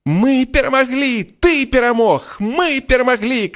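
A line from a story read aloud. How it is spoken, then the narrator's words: Jubilant shouting. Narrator (Belarusian): крычаў Рон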